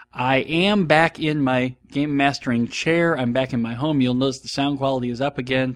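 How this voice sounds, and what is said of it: Slightly sick, off-sounding voice. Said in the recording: “apologize for my voice ... my upper respiratory tract has been flirting with the idea of catching the flu ... I never quite sound healthy either. So if my voice sounds a little off”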